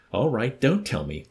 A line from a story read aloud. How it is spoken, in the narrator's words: Corporal Wickham snapped